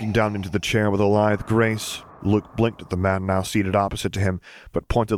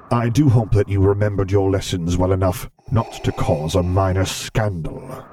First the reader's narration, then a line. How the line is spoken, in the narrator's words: he rumbled in a somewhat sterner tone